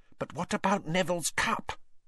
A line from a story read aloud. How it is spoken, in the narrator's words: Lavender whispered